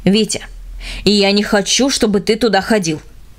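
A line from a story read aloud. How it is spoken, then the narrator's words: Stern, every word stressed. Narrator (Russian): строго сказал отец, делая ударение на каждом слове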